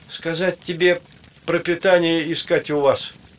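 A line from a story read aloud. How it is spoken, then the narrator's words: Loud. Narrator (Russian): громко сказал Явытха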